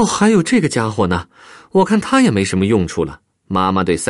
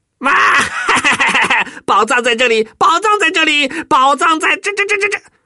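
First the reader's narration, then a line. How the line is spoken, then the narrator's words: Garbled shouting. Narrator (Chinese): 他呜里哇啦的喊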